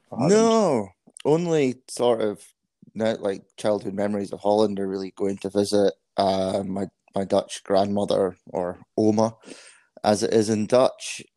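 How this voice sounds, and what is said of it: Scottish accent. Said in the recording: “as my accent might give away, I grew up in Scotland”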